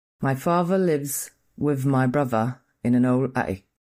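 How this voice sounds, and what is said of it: Put-on British English accent. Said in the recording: “sound a bit British when I say that ... a book with British English ... doing that accent”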